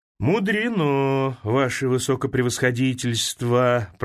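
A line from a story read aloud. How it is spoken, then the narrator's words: Upset mumble. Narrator (Russian): промямлил расстроенный Шабашкин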